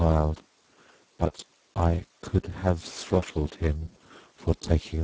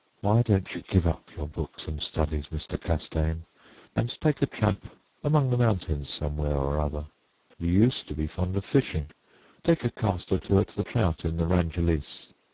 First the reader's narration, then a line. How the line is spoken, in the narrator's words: said very gently